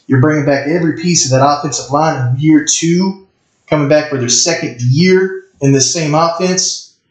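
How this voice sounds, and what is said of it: Yelling, very loud excited speech. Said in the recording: “Why are you yelling? ... you deafening me over here ... you're getting loud with them Gamecocks”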